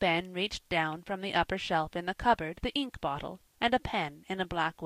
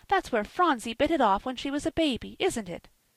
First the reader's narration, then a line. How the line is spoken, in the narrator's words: cried Polly